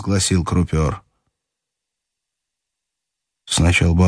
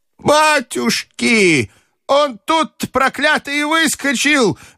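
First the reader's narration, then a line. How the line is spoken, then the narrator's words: Grandmother wailing. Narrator (Russian): вопила бабушка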